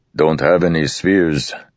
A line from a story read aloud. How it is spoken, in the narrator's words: Rock said with a grunt